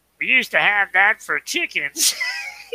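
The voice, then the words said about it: Imitates another person's voice, badly. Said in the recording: “Doing a really bad impression of him”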